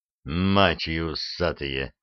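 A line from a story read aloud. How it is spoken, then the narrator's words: Wheezing rasp. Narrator (Russian): прохрипел лейтенант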